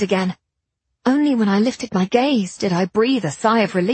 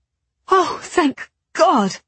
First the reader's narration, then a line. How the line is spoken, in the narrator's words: panted